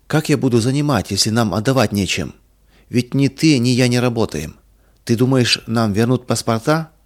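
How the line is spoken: Calm question. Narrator (Russian): спокойно спросил Иван Михайлович

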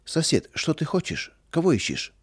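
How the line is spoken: Calm, puzzled question. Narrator (Russian): Трофим Семенович, ничего не понимая, спокойно спросил

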